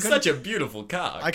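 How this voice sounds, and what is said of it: George Takei impression. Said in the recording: “does a great impression ... George Takei impression”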